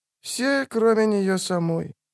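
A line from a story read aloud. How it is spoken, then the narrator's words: Quiet remark. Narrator (Russian): тихо бросил Регис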